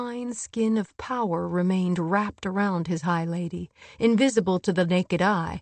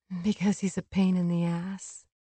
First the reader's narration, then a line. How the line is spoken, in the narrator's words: Feyre said, but smiled softly